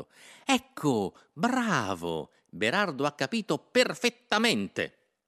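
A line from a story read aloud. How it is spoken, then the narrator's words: Satisfied exclamation. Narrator (Italian): esclamò Innocenzo soddisfatto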